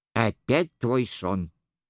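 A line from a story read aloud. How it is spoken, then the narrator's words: Slightly impatient mutter. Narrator (Russian): с легким нетерпением пробормотал Дон Санчо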